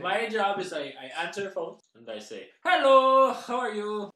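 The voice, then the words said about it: Strong put-on foreign accent. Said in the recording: “your strong accent”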